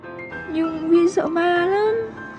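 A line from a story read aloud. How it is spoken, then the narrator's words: Tearful whimper. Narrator (Vietnamese): Nước mắt rơi lã chã, tôi mếu máo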